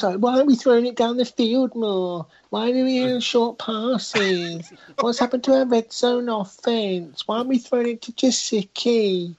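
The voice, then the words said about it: Whiny complaining sports fan voice. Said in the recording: “impersonate American Dolphins fans in your best American Dolphin fan accent ... That wasn't even an American. That's just a whiny English sort of. That's just a whiny.”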